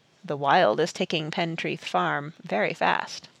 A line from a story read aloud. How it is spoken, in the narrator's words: Captain Toms said softly